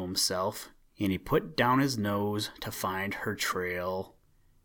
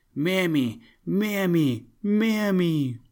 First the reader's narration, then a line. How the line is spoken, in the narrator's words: at the top of his voice